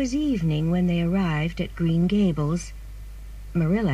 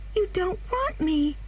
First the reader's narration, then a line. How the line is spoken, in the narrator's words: cried the child suddenly